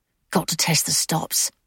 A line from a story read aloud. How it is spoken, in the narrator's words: she muttered